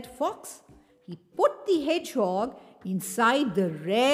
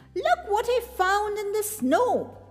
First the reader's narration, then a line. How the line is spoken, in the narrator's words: cried Fox